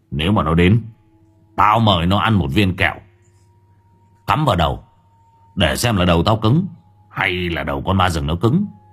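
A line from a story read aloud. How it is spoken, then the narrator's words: Cold. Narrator (Vietnamese): Lâm Đen lạnh lùng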